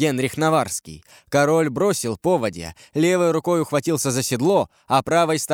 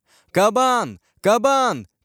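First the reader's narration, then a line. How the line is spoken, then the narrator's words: Shouting, king. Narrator (Russian): кричал король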